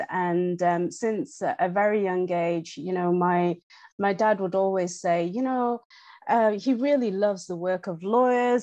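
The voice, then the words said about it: English accent. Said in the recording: “from my accent, it's no secret that I am in fact English”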